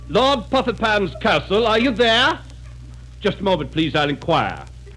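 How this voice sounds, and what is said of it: Put-on upper-class English accent. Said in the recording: “our English drawing room drama ... Remember your accents, fellows.”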